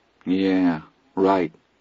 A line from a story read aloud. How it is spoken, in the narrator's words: Charlie said miserably